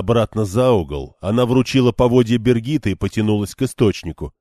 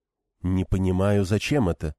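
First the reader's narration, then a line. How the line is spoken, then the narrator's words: Muttering. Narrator (Russian): пробормотала коричневая Тайренка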